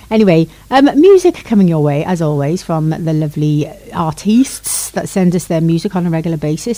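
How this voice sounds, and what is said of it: Playfully exaggerated put-on accent. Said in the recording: “I don't know why I'm flicking my accent round today. I'm in one of those moods”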